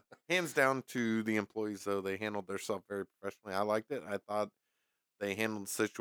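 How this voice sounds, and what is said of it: Usual voice. Nothing is said of it.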